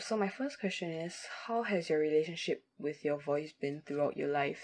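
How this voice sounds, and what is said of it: Non-native English accent. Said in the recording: “I'm from a country that's known for speaking bad English and hor- having horrible accents”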